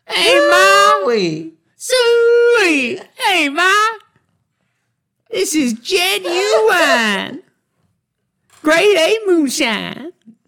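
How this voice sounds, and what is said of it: Put-on redneck accent. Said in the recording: “accent ... redneck ... I think I can do a really good redneck impersonation.”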